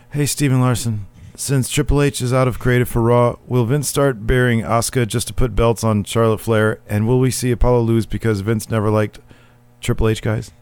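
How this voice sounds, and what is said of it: Imitates another person's voice. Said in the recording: “in my Christopher Rappersod voice.”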